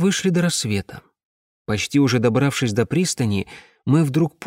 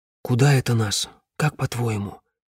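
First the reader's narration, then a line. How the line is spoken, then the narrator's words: Quiet question. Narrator (Russian): тихо спросил я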